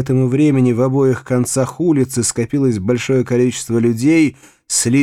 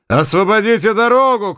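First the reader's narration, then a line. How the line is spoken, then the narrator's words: Shouting. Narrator (Russian): крикнул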